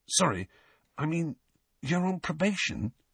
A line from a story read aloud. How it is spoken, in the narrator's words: he whispered